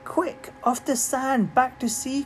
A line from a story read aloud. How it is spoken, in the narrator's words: cried the snail